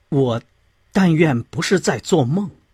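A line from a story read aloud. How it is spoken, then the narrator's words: Very hoarse voice. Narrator (Chinese): 拜伦用非常沙哑的声音说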